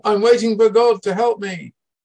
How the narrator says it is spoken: shouting

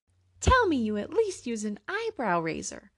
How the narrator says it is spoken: a woman piped up

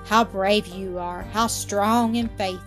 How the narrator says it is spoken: he cried admiringly

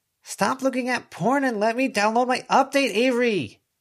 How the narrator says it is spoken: Declan shouted, fighting with Sheridan now

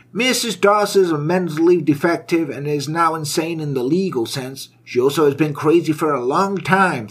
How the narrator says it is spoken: thundered a doctor

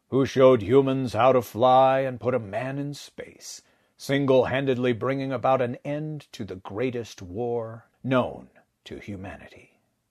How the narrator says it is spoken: he said, his quiet baritone rumbling through Wilbur's chest

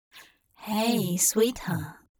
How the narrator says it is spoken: Hop murmured

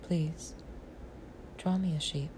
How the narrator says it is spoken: he repeated softly and gravely

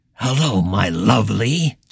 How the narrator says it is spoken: Justin hissed with a still and small grin

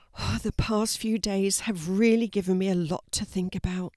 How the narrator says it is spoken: sighed Fiona

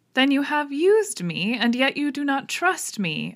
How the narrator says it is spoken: cried with some bitterness

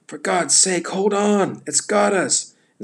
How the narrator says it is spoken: he yelled

